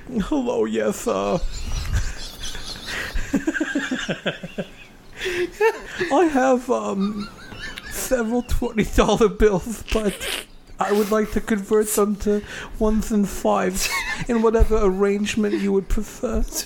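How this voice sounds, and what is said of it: Imitates another person's voice. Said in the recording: “your Norman Finkelstein impression.”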